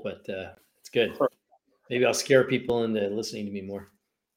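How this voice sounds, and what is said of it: Congested, gravelly voice from a cold. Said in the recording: “I sound like a mafioso because of my uh, my cold”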